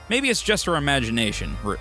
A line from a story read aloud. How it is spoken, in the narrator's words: Alfred replied